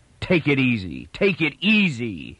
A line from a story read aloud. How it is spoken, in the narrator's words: his father mimicked savagely